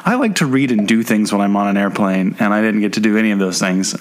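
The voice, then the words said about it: Sick voice with a cold. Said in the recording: “I have gotten sick, as you can probably tell by my voice ... my daughter has given me her first cold”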